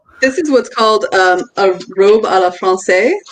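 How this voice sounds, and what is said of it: Poor attempt at French pronunciation. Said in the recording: “that's probably terrible French accent, but I I don't speak French.”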